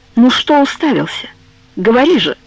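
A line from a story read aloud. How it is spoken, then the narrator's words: Heavy sigh, hesitant. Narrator (Russian): Тяжело вздохнув, Пьетро наконец решился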